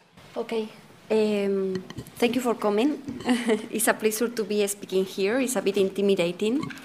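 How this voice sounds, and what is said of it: Spanish accent in English. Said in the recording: “My Spanish accent is coming with me everywhere I go ... the horrible accent”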